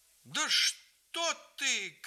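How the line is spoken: Grandmother's startled shout. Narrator (Russian): крикнула бабушка, вскинувшись с пола

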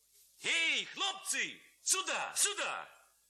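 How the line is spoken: Shouting. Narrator (Russian): кричал он

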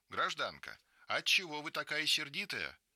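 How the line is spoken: Joyful cry. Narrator (Russian): Маруся вскрикивает радостно

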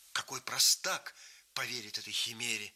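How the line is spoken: Stung young man exclaiming. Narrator (Russian): воскликнул молодой человек, задетый немым и полным ехидного издевательства смехом старика

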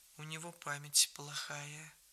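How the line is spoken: Aunt speaking softly. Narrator (Russian): Тетка тихонько сказала

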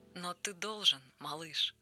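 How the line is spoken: Gentle pleading, group voices. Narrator (Russian): ласково просили его жители

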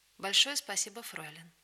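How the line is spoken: Soft, friendly, smiling. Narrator (Russian): ласково улыбнулся мне и негромко сказал дружеским тоном

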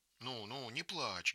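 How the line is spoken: Gentle, affectionate. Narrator (Russian): говорит Анна Ивановна ласково

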